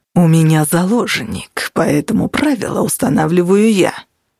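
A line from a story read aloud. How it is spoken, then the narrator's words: Hissed. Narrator (Russian): прошипел Веб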